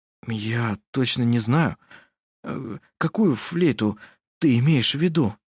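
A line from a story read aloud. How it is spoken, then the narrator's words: Stammering. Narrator (Russian): Заикаясь, сказал он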